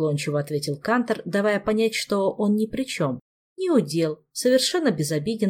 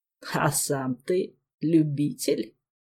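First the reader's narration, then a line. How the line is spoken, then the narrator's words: Ironic creaky voice. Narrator (Russian): иронично проскрипел Седой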